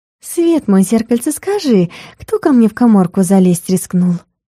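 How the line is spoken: Sugary cooing voice. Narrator (Russian): самым елейным голосом проворковала

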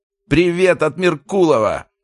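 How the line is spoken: Attacker's shout. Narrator (Russian): крикнул один из нападавших

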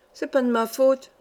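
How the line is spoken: Guilty stammering. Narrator (French): balbutiait la coupable

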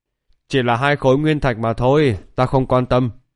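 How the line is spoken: Laughing. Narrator (Vietnamese): Phạm Hiền thì bật cười nói

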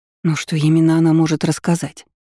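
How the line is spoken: Hoarse voice. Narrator (Russian): прохрипела Лейна

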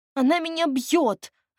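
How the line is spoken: Offended whining. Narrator (Russian): обиженно заскулила Машка

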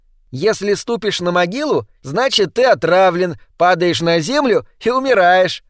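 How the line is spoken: Cheerful explaining tone. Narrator (Russian): развеселым тоном объяснила Изабел Скелтон

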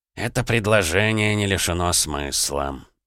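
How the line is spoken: Thoughtful mutter. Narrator (Russian): задумчиво пробормотал Аполлонов

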